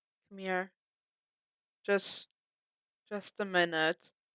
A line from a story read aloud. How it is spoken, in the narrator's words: Clint repeated, slurring slightly